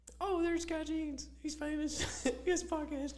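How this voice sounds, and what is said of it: Man imitating a woman's voice. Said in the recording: “Is that how Emily sounds? ... It's probably an awful description of how Emily sounds ... you don't sound like that at all. That's my girl impression for every woman in my life”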